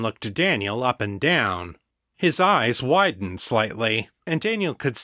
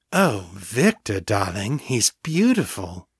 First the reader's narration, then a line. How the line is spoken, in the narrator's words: she purred